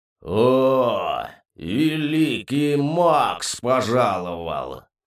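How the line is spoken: Mocking drawl. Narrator (Russian): протянул Кубахтон не без насмешки в голосе

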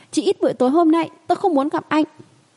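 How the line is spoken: Angry low-voiced shout. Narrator (Vietnamese): Nhàn tiểu thư cuối cùng cũng nổi nóng, thấp giọng hét lên

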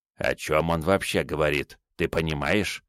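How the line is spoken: Quiet question. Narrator (Russian): спросил у меня тихо Медзи

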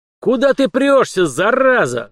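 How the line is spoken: Yelled. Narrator (Russian): завопил Дугин

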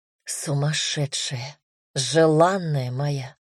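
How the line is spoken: Passionate whisper. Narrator (Russian): горячо прошептал Дамир

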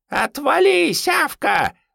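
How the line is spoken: Shrieking. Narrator (Russian): завизжала Надежда Вениаминовна

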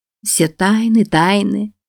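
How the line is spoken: Laughing. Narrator (Russian): засмеялась она

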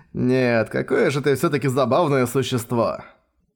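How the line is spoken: Laughing. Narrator (Russian): Засмеялся Леон

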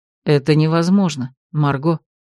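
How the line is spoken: Quiet reply. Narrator (Russian): так же тихо ответил Ролан

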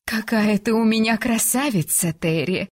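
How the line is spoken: Sighing. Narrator (Russian): Вздохнула она

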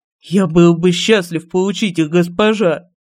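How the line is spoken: Fervent breathy exclamation. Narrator (Russian): Горячо выдохнул Каплен

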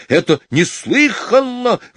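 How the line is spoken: Exclamation. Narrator (Russian): воскликнул третий

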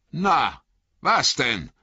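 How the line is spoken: Farmer's call. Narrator (German): rief der Bauer Margot

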